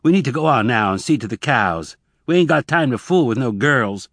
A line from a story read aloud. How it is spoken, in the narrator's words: He said harshly